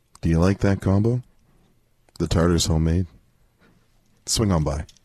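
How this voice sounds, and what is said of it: Deep, slow, sultry moaning voice. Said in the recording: “deep voice ... could you give her a slow moan here?”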